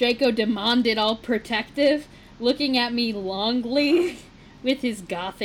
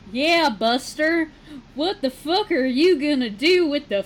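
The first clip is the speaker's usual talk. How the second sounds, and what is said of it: Put-on Southern accent. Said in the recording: “Why is Draco Southern now? ... you don't get to say "Yeah, Buster" in a regular accent.”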